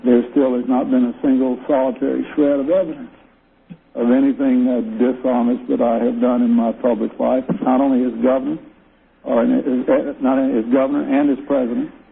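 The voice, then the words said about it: Southern American accent. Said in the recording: “you got that southern accent there”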